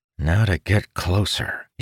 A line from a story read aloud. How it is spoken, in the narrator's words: muttered